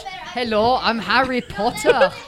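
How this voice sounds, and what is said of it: Exaggerated British-Scottish Harry Potter voice. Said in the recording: “That's more Scottish... that's too British.”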